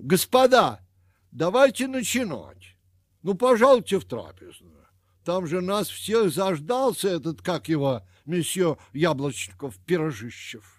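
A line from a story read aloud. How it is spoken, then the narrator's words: Shouting. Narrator (Russian): Кто-то крикнул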